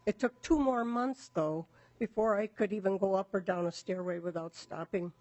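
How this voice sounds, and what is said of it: Damaged, strained voice. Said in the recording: “my throat and lungs are permanently damaged due to the longevity of my illness, which you can probably hear in my voice”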